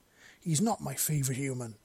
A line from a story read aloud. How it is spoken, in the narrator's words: she snapped, voice audibly showing her bulk